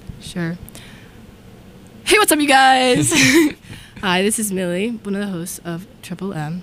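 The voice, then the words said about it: Hoarse, strained voice. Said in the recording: “If you don't recognize me, it's because I lost my voice.”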